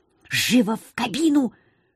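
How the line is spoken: Whisper. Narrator (Russian): шепнула Лилука

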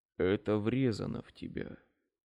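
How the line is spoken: Whispered. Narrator (Russian): шептал Рейд

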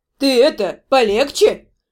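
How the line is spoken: Grumbled. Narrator (Russian): пробурчала Дора

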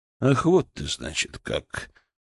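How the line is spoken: Quiet. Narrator (Russian): произнес он негромко

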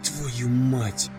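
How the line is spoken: Whispering. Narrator (Russian): прошептал он

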